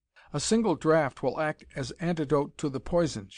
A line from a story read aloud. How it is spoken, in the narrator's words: said